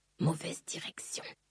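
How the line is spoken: Murmured. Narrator (French): murmura-t-il

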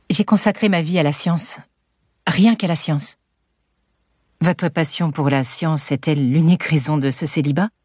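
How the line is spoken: Very calm. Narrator (French): Alice répond très calmement

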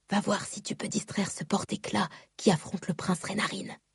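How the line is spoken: Whispering. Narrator (French): chuchota-t-elle

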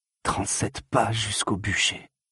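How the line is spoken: Murmured. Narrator (French): murmura Adienne

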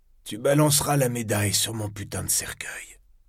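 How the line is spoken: Hissing voice. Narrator (French): fit-il d'une voix sifflante

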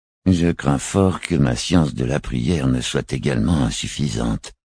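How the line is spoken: Murmured. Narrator (French): murmura le vicaire

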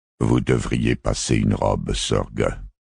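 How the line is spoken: Governor's curt dry voice. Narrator (French): dit le gouvernant Quinn d'une voix sèche

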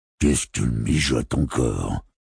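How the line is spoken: Murmuring. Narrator (French): murmura Don le fil

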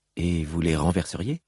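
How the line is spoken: Curious questioning voice. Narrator (French): demanda Sigzil d'une voix curieuse

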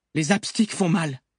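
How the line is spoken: Shouted. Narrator (French): cria Luc

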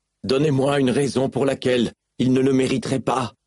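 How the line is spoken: Yelling defiantly. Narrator (French): hurla Kaladin, se moquant bien que les ardents l'entendent

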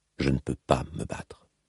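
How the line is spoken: Said softly. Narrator (French): dit-il tout bas

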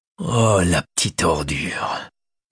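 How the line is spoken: Murmured. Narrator (French): murmura Macaire

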